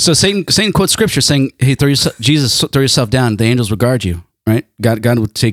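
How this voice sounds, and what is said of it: Usual voice. Nothing is said of it.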